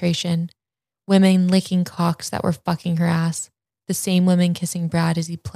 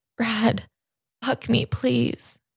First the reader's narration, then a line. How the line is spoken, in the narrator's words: begged